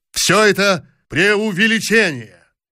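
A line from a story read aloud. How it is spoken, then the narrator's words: Frenzied shout. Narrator (Russian): он еще раз неистово крикнул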